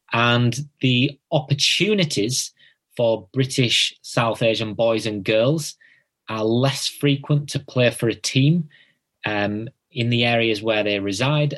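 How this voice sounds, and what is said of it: Northern English accent. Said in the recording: “the north of England, which is where I'm from, as you can tell from my accent.”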